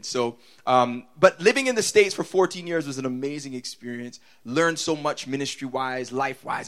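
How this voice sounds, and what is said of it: Mixed American, Toronto and Bajan accent. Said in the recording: “My accent is just broken up. There's American in there. There's Toronto in there. There's Bajan in there. It's messed up”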